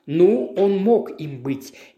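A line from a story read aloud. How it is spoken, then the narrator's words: Slow drawl. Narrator (Russian): медленно протянул Роули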